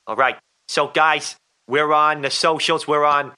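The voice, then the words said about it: New York accent drifting into Boston. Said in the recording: “can you do that in a New York accent ... I think I've gone Boston. I've totally gone Boston now. I'm like Ted the kid, or Peter Griffin.”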